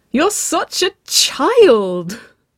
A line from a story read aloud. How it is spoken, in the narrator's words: Waverley laughed, wriggling in Nicole's arms